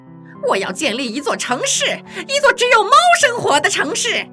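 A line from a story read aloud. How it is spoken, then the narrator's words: Sudden angry roar. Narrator (Chinese): 这只猫突然怒吼起来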